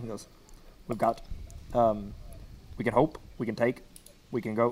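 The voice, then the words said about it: Imitates another person's voice, very fast. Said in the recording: “my best real Obama impression... even your Obama is really, really fast”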